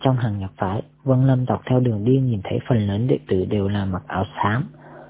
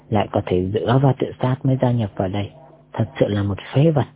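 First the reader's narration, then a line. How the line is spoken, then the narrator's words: Young man, contemptuous mutter. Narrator (Vietnamese): thanh niên miệt thị lẩm bẩm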